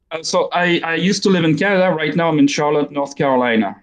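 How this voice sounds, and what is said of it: French-accented English. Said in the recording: “your accent isn't Canadian ... there's some Belgian French, Canadian French in my accent, and more and more every day of English ... it's probably never going to sound English either”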